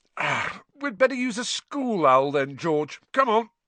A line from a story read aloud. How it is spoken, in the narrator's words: yawning, and said